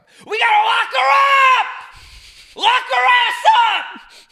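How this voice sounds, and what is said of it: Screaming with a cracking voice. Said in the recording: “scream ... My voice just cracked so bad.”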